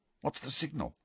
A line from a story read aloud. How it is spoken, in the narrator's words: muttered Harry